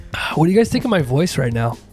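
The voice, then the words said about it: Raspy, tired-sounding voice. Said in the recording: “You just sound like raspy, like you're getting over a cold or something ... You sound a little tired ... A little washed up”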